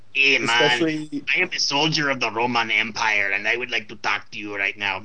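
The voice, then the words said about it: Mimics odd game voice-acting accent. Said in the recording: “some strange voice acting decisions ... the enormous disparity in accents that you're going to hear from the voice acting cast”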